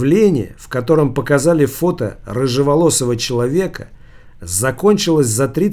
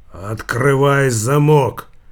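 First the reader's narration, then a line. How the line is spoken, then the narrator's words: Hoarse voice from behind. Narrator (Russian): прохрипел голос за спиной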